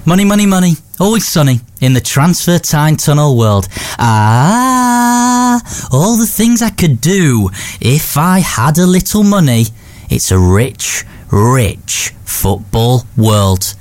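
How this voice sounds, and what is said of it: Singing in semi-Yorkshire accent. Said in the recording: “Why am I singing ABBA in a semi-Yorkshire accent?”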